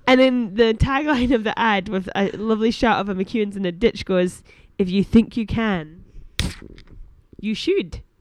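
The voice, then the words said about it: Put-on Scottish Paisley accent. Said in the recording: “That was my Scottish accent. ... That Paisley accent. ... Surprisingly close.”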